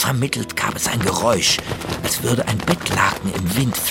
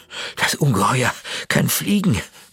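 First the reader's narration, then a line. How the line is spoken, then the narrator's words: Breathless panting. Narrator (German): keuchte Tore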